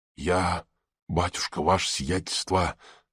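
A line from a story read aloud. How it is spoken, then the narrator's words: Trusting whisper. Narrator (Russian): продолжала она доверчивым шепотом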